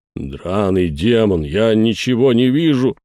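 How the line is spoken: Howl. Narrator (Russian): взвыл Жерар

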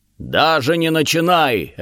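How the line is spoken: Barking. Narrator (Russian): рявкнул Фамрир

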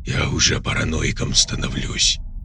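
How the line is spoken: Muffled voice inside helmet. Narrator (Russian): глухо донеслось в шлеме Сани

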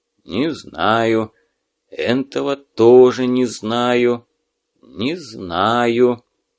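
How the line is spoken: Muttering. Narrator (Russian): Гнат бормоча

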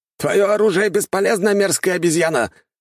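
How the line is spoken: Shouted. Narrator (Russian): что-то прокричал один из самураев

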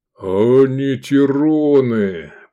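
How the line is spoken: Booming maned creature. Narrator (Russian): прогудел пышногривый

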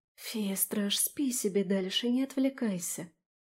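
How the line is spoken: Pleading undertone. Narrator (Russian): вполголоса взмолилась я

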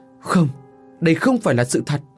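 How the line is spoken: Panicked screaming. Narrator (Vietnamese): Ông Giang và vợ thét lên thất thanh

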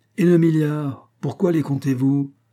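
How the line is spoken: Exasperated exclamation. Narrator (French): s'écria William Bolton, que ce raisonnement exaspérait

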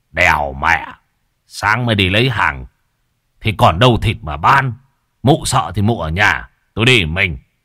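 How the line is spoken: Aggressive half-doubting shout. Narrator (Vietnamese): Anh Sẹo mặc dù có chút bán tín bán nghi, song vốn bản tính hung hăng, anh quát vợ

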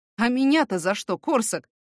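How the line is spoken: Wry snort. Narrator (Russian): хмыкнул

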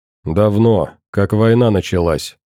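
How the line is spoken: Dry reply. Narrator (Russian): сухо ответил я

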